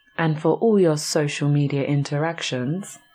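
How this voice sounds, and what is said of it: Radio announcer voice. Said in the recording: “I was just trying out a little radio voice there.”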